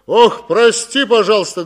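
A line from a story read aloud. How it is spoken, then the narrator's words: Loud bellow. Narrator (Russian): гаркнул он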